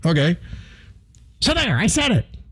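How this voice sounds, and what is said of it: Imitates another person's voice. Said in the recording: “my Mark Levin imitation.”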